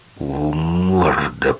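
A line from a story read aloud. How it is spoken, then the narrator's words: Hissed. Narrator (Russian): прошипел Джек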